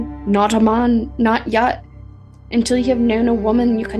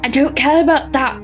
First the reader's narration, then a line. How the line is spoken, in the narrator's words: John said hotly